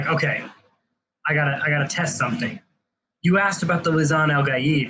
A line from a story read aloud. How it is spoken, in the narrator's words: she says